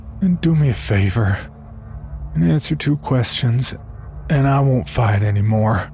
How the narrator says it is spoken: I said in my most defeated voice

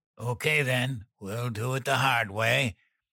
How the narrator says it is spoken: Dan grunted

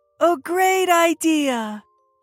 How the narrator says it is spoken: she shouted

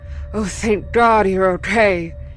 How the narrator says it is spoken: said tearfully

